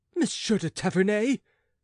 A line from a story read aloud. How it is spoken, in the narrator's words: cried the queen